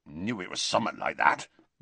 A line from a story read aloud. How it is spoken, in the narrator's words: mumbled Hagrid